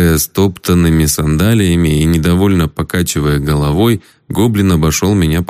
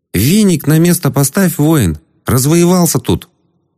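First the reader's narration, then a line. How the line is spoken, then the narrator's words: Squeaky commanding goblin voice. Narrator (Russian): Невысокий седой гоблин неожиданно писклявым голосом приказал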